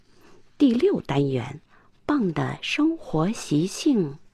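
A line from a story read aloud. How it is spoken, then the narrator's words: Quiet reading aloud. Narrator (Chinese): 亚瑟 小声的读起来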